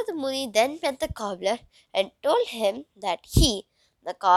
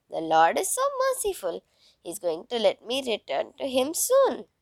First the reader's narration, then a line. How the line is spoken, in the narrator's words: the cobbler, dancing, exclaimed